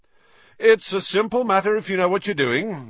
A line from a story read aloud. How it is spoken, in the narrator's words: Lockhart was saying loudly to Hagrid